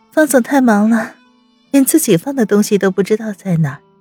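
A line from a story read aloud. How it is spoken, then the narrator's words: Casual teasing. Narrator (Chinese): 装作漫不经心，温之夏开口调笑道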